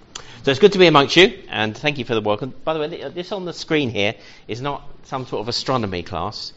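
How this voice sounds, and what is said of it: London accent. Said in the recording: “I'm from London, you may have picked up the accent, born and bred, from Peckham, but I don't sound like Del Boy.”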